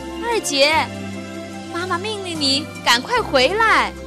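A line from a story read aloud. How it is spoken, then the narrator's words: Loud shout. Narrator (Chinese): 秋风姑娘在海边大叫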